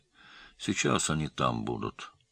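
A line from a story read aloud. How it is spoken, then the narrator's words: Low voice. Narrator (Russian): вполголоса сказал Керимов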